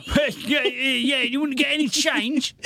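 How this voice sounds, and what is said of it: Put-on London accent. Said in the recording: “I don't know why I've had a Londoner's voice for that... The times when it's definitely a Yorkshire person speaking... I can only do London accent”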